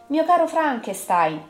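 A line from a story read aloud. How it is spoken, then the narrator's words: Exclaiming. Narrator (Italian): esclamò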